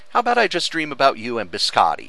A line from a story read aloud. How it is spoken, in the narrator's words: he laughed